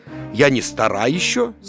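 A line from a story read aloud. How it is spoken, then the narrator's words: Plain. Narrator (Russian): сказала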